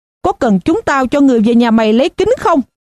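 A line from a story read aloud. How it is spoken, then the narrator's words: Shout. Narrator (Vietnamese): một người khác hét lên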